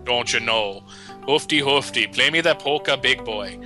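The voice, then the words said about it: Put-on Minnesota accent. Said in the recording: “dumbasses out in Minnesota are like, you know, people, you know, like watching, Fargo's on the TV”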